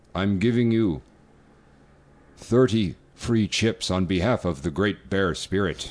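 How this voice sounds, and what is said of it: Put-on Native American accent. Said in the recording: “the Native American accent, like the traditional, like Native American, like an Apache Indian ... it's a fun accent ... It's a good one”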